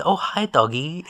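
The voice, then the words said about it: Imitated accent from The Room. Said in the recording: “The one-liners, the accent.”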